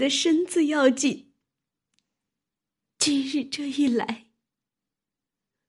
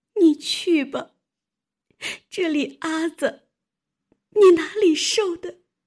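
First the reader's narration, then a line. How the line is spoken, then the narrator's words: Crying. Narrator (Chinese): 晴雯哭道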